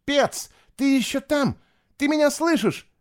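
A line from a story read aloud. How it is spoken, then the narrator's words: Boy shouting. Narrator (Russian): закричал мальчик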